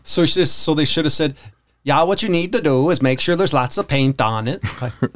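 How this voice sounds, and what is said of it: Put-on Swedish accent. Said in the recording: “we're going to have a bunch of Danish people calling up. So that's a Swedish impersonation.”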